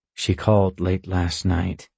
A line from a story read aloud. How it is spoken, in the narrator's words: he murmurs sideways to me